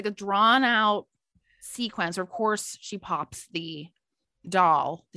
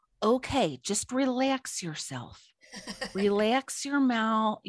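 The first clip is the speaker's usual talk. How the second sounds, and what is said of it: Put-on strong Chicago accent. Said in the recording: “she has that strong Chicago accent”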